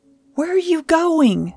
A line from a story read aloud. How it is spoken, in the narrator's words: yelled